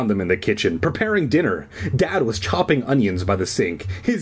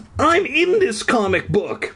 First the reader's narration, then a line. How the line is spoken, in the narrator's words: I cried